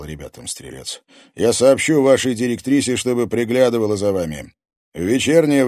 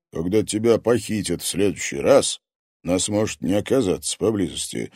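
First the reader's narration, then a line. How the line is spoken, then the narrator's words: Calm. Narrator (Russian): спокойно сказал ей Козерог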